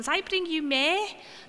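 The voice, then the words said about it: Put-on Scouse accent. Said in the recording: “in a good Scouse accent”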